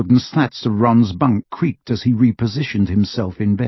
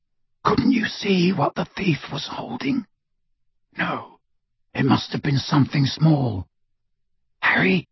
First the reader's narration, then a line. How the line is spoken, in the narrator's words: Ron whispered